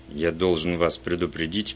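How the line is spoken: Witness speaking muffled. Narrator (Russian): глухо сказал свидетель

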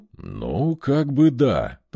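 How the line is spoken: Grumbling. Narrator (Russian): пробурчал Арьер

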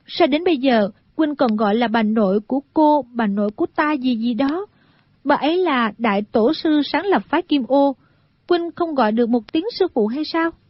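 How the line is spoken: Smiling. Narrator (Vietnamese): A Tú mỉm cười nói

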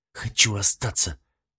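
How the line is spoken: Envious, through gritted teeth. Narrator (Russian): процедил сквозь зубы, пряча разочарование и зависть

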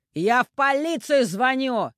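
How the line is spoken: Shouted after someone. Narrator (Russian): крикнул ей в спину Анатолий

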